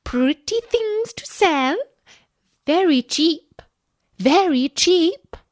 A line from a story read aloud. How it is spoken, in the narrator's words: cried